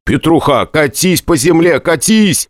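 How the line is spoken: Shouting. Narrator (Russian): кричал я Казакову

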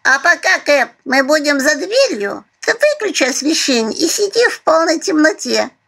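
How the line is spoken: Cooing. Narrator (Russian): проворковала Алёнушка

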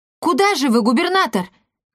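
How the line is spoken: Calling out after. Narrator (Russian): крикнула ему вслед Марта

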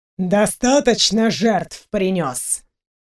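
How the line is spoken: Aggressive growl. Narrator (Russian): Фенрир зарычал, готовясь к броску

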